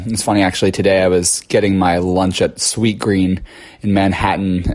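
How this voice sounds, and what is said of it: Low, husky allergy-affected voice. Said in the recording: “I have my sexy, sultry radio voice already thanks to my spring allergies. So that's why I sound this way.”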